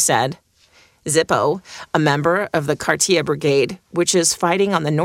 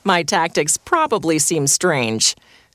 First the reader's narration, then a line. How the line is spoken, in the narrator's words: Sergeant Kirill said, laughing